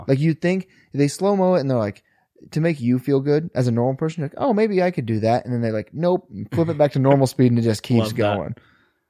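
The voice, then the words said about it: Accent with rounded R sounds. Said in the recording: “you had an accent ... I just like round my R's”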